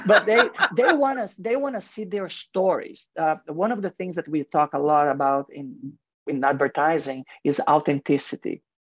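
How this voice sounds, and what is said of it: Heavy foreign accent. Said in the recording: “you can hear my heavy accent”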